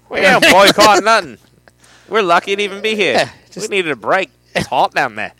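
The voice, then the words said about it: Put-on Australian accent. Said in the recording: “Sorry, Australia, for that accent.”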